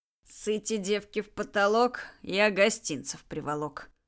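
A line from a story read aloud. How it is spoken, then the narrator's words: Muttering under breath. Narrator (Russian): пробурчал себе под нос Джек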